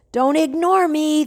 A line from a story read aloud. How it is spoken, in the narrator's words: the voice shouted